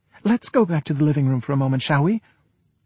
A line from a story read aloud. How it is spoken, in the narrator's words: she said hastily and trembling